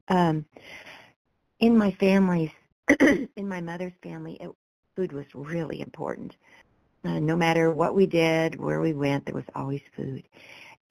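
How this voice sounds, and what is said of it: Scratchy voice. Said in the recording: “my voice is kind of scratchy these last couple of weeks”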